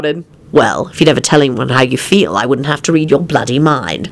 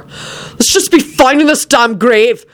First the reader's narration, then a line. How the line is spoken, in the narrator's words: he yelled out